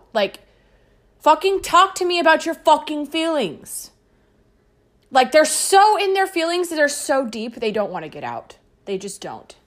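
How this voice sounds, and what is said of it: Yelling, tense agitated voice. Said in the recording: “I'm sorry for yelling. ... I'm in a tense mood.”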